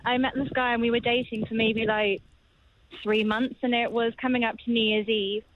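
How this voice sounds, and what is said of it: British accent like Bridget Jones. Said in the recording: “with your accent as well. It sounded like it was from Bridget Jones or something.”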